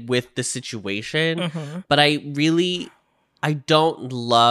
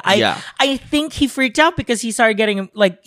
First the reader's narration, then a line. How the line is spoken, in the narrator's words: Hyunjin cried